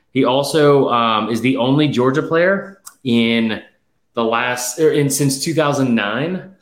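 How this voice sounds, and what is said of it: Out of breath, panting speech. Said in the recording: “I'm out of breath”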